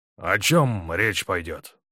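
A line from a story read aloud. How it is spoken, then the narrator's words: Muffled question. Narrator (Russian): глухо спросил Цветаев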